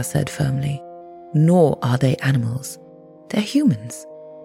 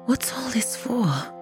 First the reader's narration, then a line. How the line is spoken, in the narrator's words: whispered Krista